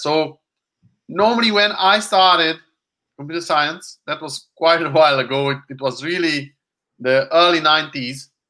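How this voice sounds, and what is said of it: Hungarian accent in English. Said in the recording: “as you might realize already from my accent, so I'm not American. I'm European. I'm Hungarian.”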